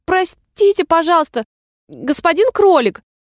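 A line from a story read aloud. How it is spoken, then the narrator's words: Timid call. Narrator (Russian): она робко окликнула его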